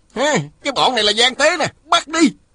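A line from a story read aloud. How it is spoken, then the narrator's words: Soldiers yelling. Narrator (Vietnamese): Mười mấy tên lính hò hét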